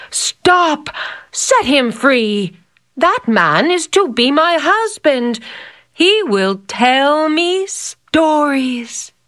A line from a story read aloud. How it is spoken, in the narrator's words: When the princess saw what was happening, she cried out